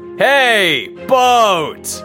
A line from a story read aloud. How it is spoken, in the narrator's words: Daddy Dorf called out